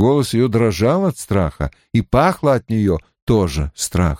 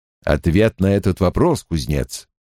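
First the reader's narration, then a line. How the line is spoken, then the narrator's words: Grim. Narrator (Russian): наконец мрачно произнес Лан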